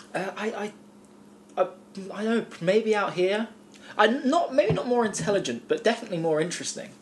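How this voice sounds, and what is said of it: English accent. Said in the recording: “the English accent? ... He's got a different accent to everyone”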